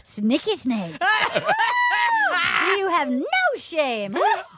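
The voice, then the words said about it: Angry imitation of another person's voice. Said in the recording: “That's the only good impression that I do is Kenny angry.”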